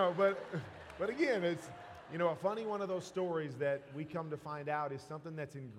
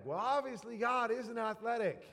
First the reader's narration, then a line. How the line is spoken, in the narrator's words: my daughter yells back